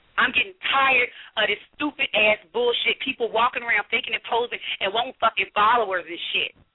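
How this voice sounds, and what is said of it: Hoarse, strained angry voice. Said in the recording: “I'm hoarse because I'm pissed off”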